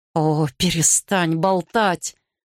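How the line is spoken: Hiss. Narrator (Russian): прошипел Гарри

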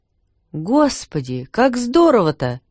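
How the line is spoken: Exclaimed. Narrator (Russian): воскликнул отец Евгений

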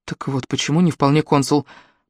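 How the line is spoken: Mumbling. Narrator (Russian): пробормотала Элли

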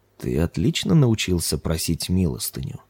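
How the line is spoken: Approving purr. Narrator (Russian): одобрительно промурлыкал жрец

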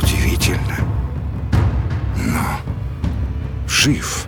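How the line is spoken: Quiet, king. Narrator (Russian): тихо сказал король

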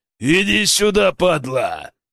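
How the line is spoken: Growling bear. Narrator (Russian): зарычал медведь

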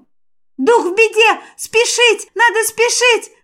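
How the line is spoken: Urgent yelling. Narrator (Russian): завопил Шварк

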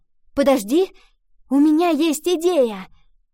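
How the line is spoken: Sudden exclamation. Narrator (Russian): Вдруг воскликнула Ива

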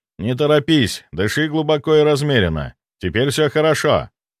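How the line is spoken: Calm, confident voice. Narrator (Russian): я говорил спокойным, уверенным голосом

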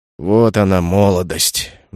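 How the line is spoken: Sigh. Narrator (Russian): вздохнул стражник

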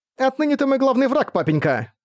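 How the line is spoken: Snorting. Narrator (Russian): фыркнула Торчейла

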